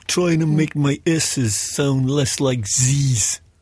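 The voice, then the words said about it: Put-on New York accent. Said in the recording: “In an accent identical to John Travolta's in Saturday Night Fever ... sort of was like New York ... Is that more like Stallone?”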